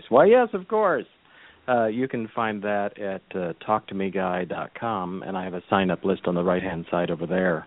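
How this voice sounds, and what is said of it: Put-on radio announcer voice. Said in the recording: “radio voice”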